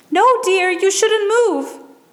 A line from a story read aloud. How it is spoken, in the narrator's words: the woman cried